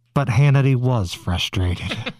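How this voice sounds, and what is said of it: Dramatic narrator voice. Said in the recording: “In my narrator voice.”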